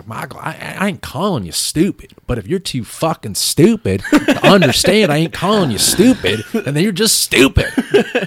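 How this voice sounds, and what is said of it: Weak put-on Southern accent. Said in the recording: “I don't do the Southern accent very well”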